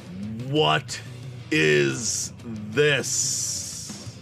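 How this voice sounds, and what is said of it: Unnaturally loud villain voice. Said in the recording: “in this unnaturally loud voice.”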